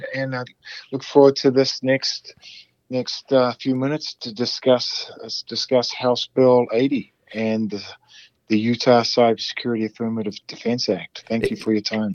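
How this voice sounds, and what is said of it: New Zealand accent. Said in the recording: “your Maori roots, and how you came to have that delightful accent”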